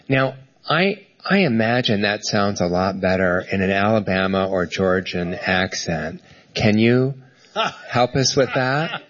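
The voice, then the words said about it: Mid-Atlantic accent. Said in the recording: “You have very much a mid-Atlantic accent.”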